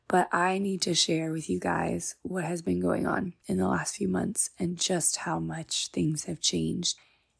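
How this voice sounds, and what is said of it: Raspy, sick-sounding voice. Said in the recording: “Forgive my raspy voice. I will hopefully have a not-so-recovering sick voice in the next episode”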